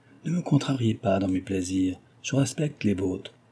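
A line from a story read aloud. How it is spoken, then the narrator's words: Quiet, low voice. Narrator (French): dit-elle tout bas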